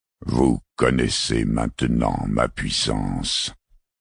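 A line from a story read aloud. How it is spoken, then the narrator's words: Metallic impersonal voice. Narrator (French): dit Tixou d'une voix métallique, impersonnelle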